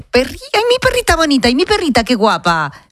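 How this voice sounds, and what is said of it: Baby talk voice. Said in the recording (Spanish): “con voz de bebé.”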